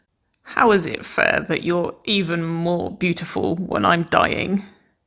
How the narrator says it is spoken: Nicole's words were hoarse, every last shot of alcohol clear in the grate of her voice

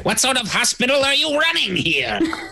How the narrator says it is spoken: just shrieks at it

